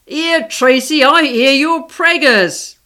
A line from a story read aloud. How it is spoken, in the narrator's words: he shouted loudly